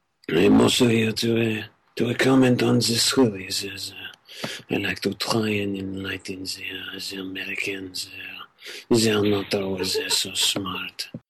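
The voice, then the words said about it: Put-on foreign accent. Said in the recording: “challenging me with this accent”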